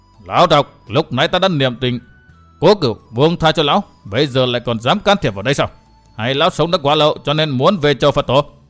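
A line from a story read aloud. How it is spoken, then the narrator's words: Shouting. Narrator (Vietnamese): Vừa quát, Minh Chủ Nhất Kiếm Minh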